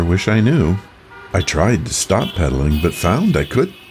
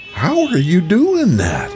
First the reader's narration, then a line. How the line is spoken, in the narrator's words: One boy was yelling